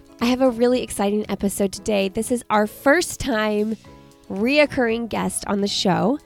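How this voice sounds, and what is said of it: Congested, nasal voice. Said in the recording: “I have a little bit of a sinus cold, so please excuse my voice”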